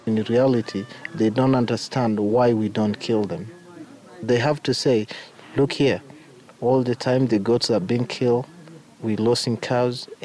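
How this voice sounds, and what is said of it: American accent. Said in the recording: “picked up his American accent working at a nearby luxury lodge, popular with Americans.”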